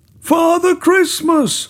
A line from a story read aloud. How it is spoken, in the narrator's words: shouted Min in a panic